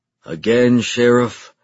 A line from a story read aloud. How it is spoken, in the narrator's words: I said in a tired voice